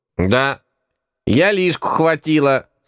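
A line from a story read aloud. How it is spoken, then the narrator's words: Calm snapping. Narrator (Russian): спокойно огрызнулась бабка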